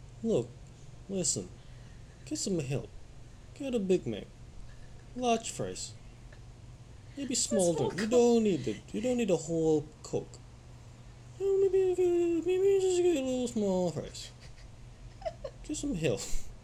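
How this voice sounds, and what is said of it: Imitated voice sounding Russian. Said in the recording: “you just made Michael Jordan sound like some Russian, tiny-ass Russian dude”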